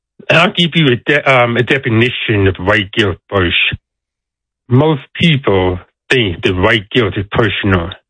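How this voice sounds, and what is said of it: Deaf speaker's accent. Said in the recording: “I am deaf, so I have a deaf accent.”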